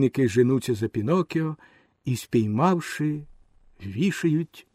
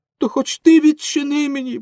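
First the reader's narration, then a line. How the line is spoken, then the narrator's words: Pleading shout. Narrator (Ukrainian): благально закричав Пінокіо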